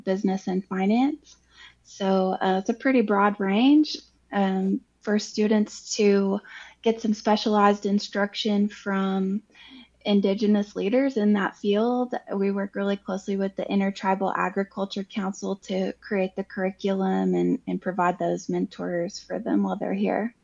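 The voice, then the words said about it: Southern American accent. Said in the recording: “your Cherokee and Southern accent”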